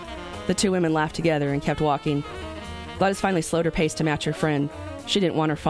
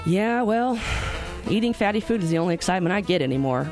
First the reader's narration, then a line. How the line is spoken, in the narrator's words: Bernie said with a sigh